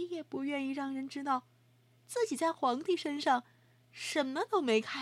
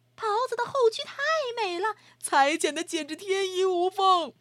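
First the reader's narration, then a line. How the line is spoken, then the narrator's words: Crowd shouting. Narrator (Chinese): 又有一些人接着喊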